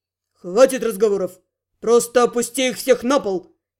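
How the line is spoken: Barked. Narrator (Russian): рявкнул Гал магу

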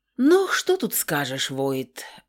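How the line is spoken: Exaggeratedly mournful sigh. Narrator (Russian): вздохнул МакГрегор преувеличенно сокрушенно

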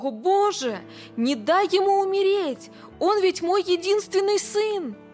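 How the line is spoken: Terrified scream. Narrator (Russian): Билл в ужасе закричал

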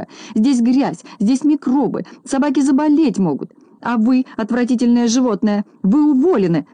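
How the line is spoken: Shouting woman. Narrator (Russian): закричала она, обратившись к Незнайке

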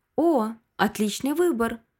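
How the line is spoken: Joyful exclamation. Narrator (Russian): радостно воскликнула миссис Коннорс

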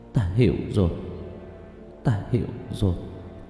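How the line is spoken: Muttering. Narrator (Vietnamese): Lý Thu Nga chớp mắt lẩm bẩm nói

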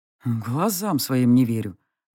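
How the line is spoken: Muttered. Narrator (Russian): наконец пробормотал он

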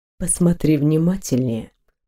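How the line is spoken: Purring man. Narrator (Russian): промурлыкал мужчина

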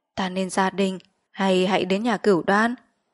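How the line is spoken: Soft smiling question. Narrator (Vietnamese): mỉm cười hỏi khẽ

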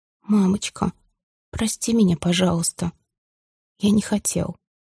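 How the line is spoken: Quiet, halting. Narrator (Russian): Миша тихо, прерывисто произнес

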